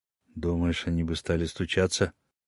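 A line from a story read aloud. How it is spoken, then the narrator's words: Barely audible. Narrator (Russian): едва слышно произнес Раткин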